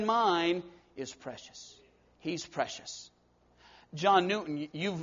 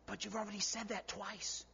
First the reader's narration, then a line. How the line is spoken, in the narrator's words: His helper whispered to him